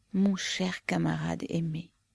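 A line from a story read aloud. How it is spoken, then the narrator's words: Low, desolate woman. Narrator (French): dit-elle d'une voix basse et désolée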